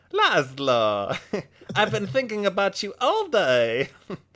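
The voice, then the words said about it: Thick put-on Nodge accent. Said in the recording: “We could do this cast in a thick accent. ... I'll do my Nodge accent.”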